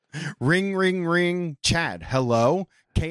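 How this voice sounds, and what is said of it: Usual voice. Nothing is said of it.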